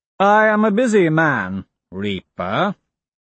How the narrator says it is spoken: he says, mocking the word

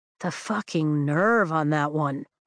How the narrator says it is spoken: Riddick mutters

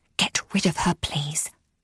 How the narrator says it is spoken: she hissed

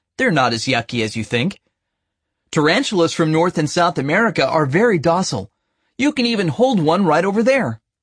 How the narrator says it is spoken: he said in a friendly, educational tone

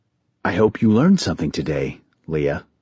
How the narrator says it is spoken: her father said calmly

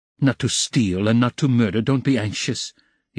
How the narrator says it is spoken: he smiled bitterly

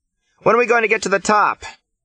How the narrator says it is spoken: Chris shouts

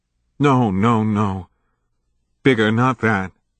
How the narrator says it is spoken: Max pleaded despairingly

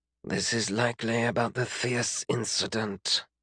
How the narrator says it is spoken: Gemmask whispered

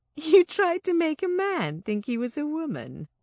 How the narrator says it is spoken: I giggled

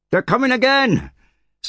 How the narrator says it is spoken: someone yelled

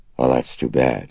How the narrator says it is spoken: Karras murmured sympathetically

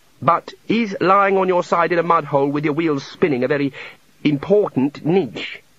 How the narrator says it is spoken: said Ponder

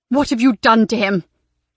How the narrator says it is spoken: Laura asked angrily

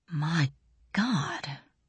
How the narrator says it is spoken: breathed Braun Lamia

